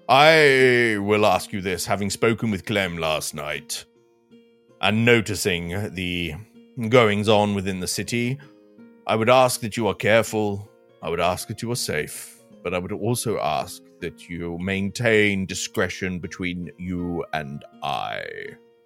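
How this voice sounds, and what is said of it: Character accent picked up from another. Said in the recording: “my accent slightly bled over into yours there ... these accents are tricky things.”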